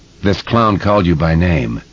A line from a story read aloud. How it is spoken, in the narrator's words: Jeff Reeves said in a totally expressionless voice